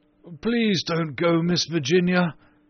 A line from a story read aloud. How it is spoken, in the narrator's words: he cried